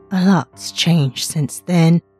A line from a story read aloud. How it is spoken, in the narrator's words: she said weakly